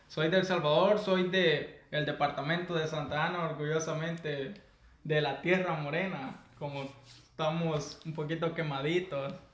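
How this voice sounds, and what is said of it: Salvadoran Spanish accent. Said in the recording (Spanish): “mi acento, creo que soy más salvadoreño”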